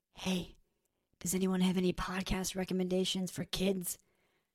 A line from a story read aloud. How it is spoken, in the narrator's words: whispered